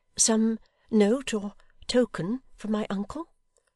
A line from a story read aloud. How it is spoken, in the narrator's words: said Emma, faltering